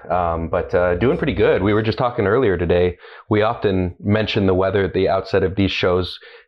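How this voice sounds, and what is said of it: Deeper, nasal, congested voice. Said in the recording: “my voice is a little bit deeper and more nasally than normal ... you can still hear it in my voice a little bit”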